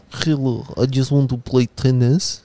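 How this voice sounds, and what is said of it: Shaky put-on Serbian accent. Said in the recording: “And this is my accent. I'm not sure about it. ... haven't met many Serbians, have you, Novak? ... I should have an accent or at least an idea of what they talk like”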